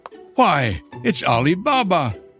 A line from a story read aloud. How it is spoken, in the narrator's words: Scrooge exclaimed in ecstasy